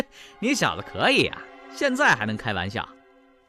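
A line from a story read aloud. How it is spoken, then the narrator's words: Laughing jailer. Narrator (Chinese): 狱卒也笑了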